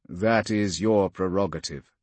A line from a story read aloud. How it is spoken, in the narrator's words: Polixis said